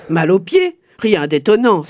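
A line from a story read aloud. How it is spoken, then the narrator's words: Friends exclaiming together. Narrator (French): s'exclamèrent ses amis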